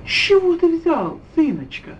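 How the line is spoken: Tender, smiling. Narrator (Russian): улыбалась та ласково и уцелуя

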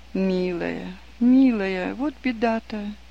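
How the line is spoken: Sighing woman. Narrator (Russian): вздохнув, сказала надзирательница

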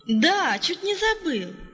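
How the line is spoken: Exclaimed. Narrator (Russian): воскликнул Палка

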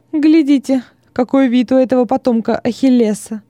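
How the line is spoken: Emboldened, laughing. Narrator (Russian): император, которому наглая самоуверенность Тигелина придала духу, рассмеялся и сказал

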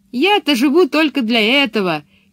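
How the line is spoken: Shouting. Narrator (Russian): крикнула она

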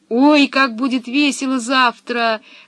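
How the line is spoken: Delighted yelling. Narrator (Russian): завопил от восторга Томми

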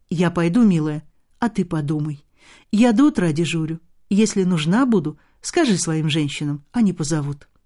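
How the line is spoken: Gentle, kind. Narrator (Russian): Нянечка ласково сказала

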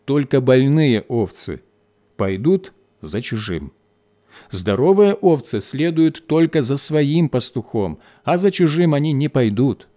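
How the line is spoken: Plain answer, shepherd. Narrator (Russian): ответил пастух

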